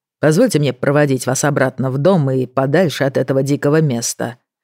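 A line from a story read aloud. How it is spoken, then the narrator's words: Cold. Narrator (Russian): холодно сказал он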